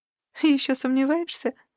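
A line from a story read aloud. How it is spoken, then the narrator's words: Laughing. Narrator (Russian): рассмеялась Шаксус Джер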